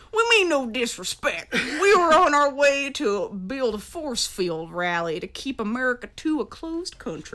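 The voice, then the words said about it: Deep Southern US accent. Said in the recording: “in a deep southern accent ... is he still using the southern accent? Yes.”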